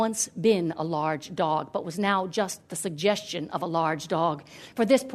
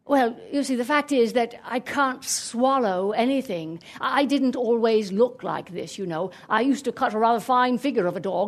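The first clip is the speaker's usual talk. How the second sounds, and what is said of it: Talking dog with English accent. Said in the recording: “the dog spoke with an English accent”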